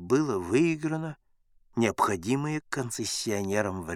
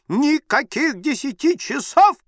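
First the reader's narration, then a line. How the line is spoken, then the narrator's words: Shrill squeal. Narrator (Russian): взвизгнула барыня Брандодым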